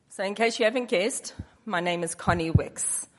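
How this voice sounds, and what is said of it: Speaks with an accent. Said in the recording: “Sometimes my accent, things get lost in translation.”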